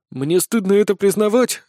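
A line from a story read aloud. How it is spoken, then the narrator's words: Sighing. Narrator (Russian): вздохнул Сисюля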